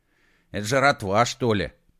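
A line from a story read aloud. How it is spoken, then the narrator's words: Grumbling mutter. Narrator (Russian): пробурчал Колдей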